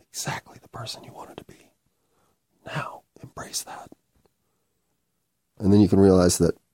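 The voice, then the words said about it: Whispering. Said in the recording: “why am I whispering?”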